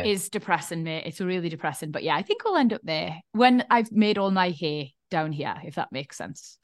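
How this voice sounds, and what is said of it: Geordie accent. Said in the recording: “I want little Geordie accents in my house. I'm not being the only one who fucking speaks like this in my house.”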